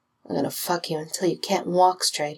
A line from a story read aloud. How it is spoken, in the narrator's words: he murmured, millimeters from Jensen's lips